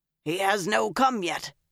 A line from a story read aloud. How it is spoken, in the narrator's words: he said roughly